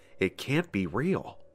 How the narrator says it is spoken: I whispered

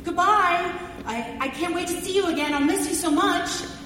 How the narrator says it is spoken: Justin shouted at him

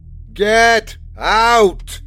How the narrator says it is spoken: roared the old man, his voice like a storm wind

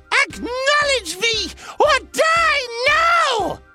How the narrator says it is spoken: She screamed above the noise

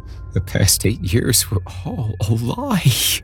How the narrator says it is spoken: I said, as my words turned to shuddering sobs

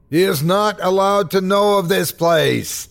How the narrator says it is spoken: he shrieked

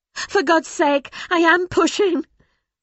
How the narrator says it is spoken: she'd screamed

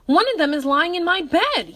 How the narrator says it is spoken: yelled William

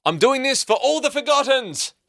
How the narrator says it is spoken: she exclaimed

